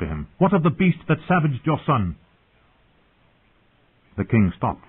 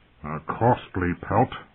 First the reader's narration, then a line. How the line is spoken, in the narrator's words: Robert grumbled